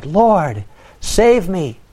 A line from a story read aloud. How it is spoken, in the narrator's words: he was afraid, and beginning to sink, he cried